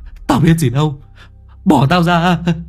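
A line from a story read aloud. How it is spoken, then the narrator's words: Terrified shriek. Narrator (Vietnamese): Thằng Vinh kinh hãi rú lên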